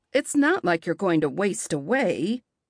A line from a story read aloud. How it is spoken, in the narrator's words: Aunt Tilly grumbles to my impatient dog